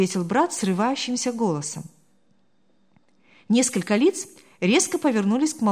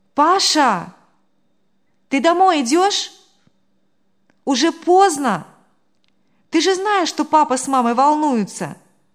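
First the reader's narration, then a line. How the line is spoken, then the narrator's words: Sudden loud call. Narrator (Russian): Девушка же вдруг громко позвала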